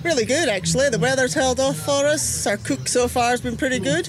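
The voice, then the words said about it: Scottish accent. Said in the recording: “you have a very interesting accent ... I'm originally from Aberdeen in Scotland”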